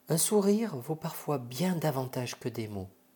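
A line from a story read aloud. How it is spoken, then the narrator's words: Whispered. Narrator (French): chuchote Monsieur Igor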